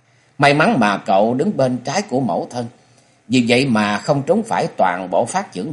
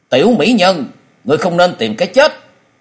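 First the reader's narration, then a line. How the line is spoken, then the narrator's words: Commanding shout. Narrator (Vietnamese): tiếng quát nơi mé vực thẳm, thư sinh áo đen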